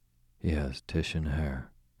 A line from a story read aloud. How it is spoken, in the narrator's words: said Justin blandly